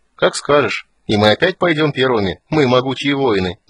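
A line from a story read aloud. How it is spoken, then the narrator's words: Laughing. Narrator (Russian): засмеялся Тасс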